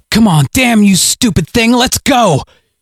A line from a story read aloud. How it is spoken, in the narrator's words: growled